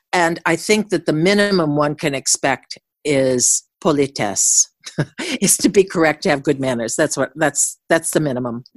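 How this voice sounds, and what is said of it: Speaker with a noticeable accent. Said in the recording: “I think your accent is just great.”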